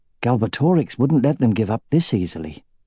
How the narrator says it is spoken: he muttered to himself

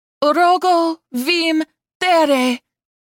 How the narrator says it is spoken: Zenith cried

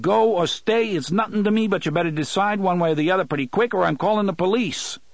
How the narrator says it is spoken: McGursky yelled

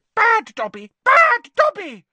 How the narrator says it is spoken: squealing

